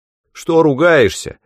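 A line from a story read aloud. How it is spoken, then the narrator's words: Shouting angrily. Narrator (Russian): закричал он на старуху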